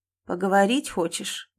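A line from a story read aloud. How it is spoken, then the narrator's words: Muffled question. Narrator (Russian): глухо спросила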